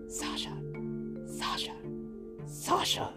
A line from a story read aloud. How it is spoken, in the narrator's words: whispered loudly